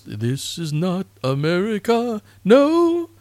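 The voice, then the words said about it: Sung imitation of a singer's voice. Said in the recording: “my best David Bowie impression”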